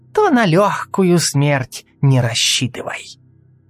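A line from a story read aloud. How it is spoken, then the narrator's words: Hiss. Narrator (Russian): прошипела Сельда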